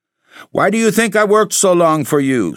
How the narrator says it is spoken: Sobel cried out

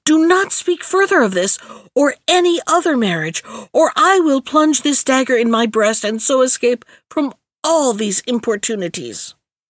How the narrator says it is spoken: she cried angrily

